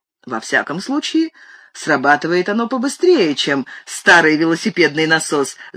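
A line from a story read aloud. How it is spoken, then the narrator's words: Laughing. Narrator (Russian): засмеялся я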